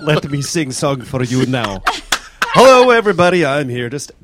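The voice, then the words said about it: Put-on foreign accent. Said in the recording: “Perhaps if I do with an accent”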